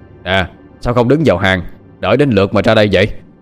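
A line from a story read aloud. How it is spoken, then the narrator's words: Loud shout. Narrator (Vietnamese): Tên đầu trâu quát lớn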